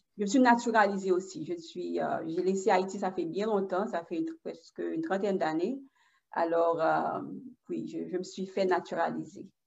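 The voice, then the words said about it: Haitian accent speaking French. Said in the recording (French): “vous avez ce merveilleux accent haïtien quand vous parlez français”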